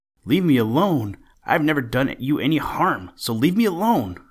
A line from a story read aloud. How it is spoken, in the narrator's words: whimpered Bobby Coon